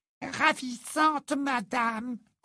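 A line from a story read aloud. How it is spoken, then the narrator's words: Squeaking. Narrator (French): couina Hoquet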